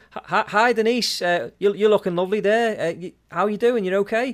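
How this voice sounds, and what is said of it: Broad Liverpool-influenced accent. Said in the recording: “my accent changes because I'm talking to a Scouser ... When I'm talking on here, I speak a little bit more proper ... I'm talking really like”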